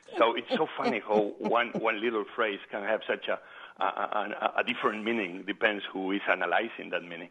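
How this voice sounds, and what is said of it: Foreign accent in English. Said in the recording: “they knew that I was an immigrant, a foreigner ... they know my accent, they know I'm a faraway guy”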